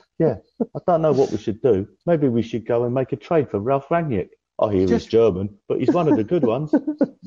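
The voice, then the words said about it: Michael Keane impression. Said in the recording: “One of my favourite impressions, Michael Keane. It's not a great impression ... I'd say it was a solid impression”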